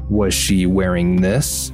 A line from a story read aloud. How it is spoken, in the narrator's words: Mom asked